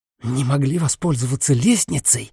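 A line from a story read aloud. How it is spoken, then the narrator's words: Furious hiss. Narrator (Russian): яростно прошипела Сиена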